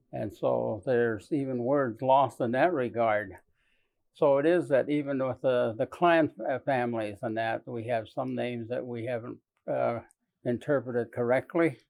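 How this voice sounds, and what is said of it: Navajo-accented English. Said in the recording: “you hear that accent? That's because he speaks Navajo.”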